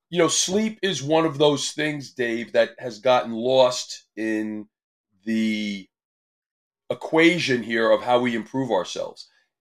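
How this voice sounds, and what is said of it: Strained, worn-out voice. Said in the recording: “apologize for my voice. I'm overcoming a cold and from screaming a little bit yelling at a competition, cheering”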